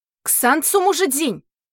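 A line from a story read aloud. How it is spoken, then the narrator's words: Shout. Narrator (Russian): крикнула Лань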